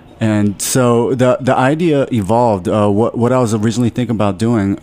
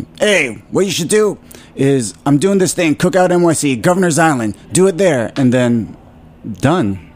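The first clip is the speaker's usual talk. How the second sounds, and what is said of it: Impression of a friend's voice. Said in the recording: “my Jimmy impression.”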